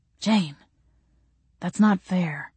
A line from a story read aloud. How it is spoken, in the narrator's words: he said quietly